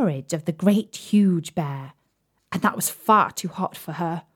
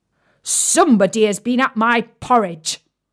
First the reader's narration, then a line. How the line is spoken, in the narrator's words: said the great huge bear in his great gruff voice